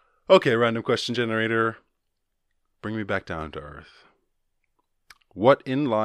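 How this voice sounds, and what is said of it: Usual voice. Nothing is said of it.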